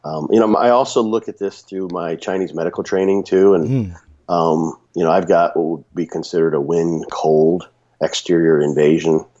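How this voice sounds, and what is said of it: Slightly raspy voice. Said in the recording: “my voice is a little raspy ... running my voice into the ground ... being sick”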